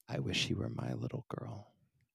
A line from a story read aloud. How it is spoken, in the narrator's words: whispering